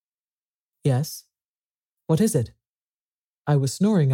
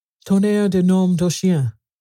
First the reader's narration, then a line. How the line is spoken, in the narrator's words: exclaimed Ganimard